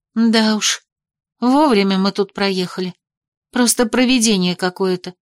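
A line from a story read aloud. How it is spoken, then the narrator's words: Guilty exhale. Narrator (Russian): выдохнула я, все еще ощущая себя виноватой перед Беляной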